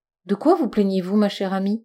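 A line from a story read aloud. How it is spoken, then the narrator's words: Gentle interruption. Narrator (French): interrompit doucement Snowdrop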